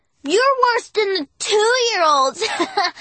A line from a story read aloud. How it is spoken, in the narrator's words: Noah said and giggled some more